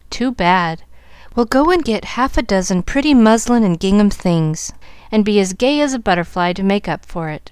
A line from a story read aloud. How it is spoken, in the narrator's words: laughed her father, really touched by the patches, and Molly's resignation to the unreliable